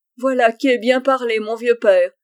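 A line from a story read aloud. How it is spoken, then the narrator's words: Laughing exclamation. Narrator (French): s'écria le voyageur en riant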